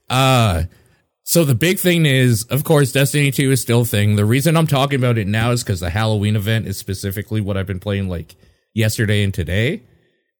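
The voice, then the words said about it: Rough, sick-sounding voice. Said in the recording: “I'm sick, so my voice is shitty. I apologize in advance... Ooh, spooky!... My spooky voice.”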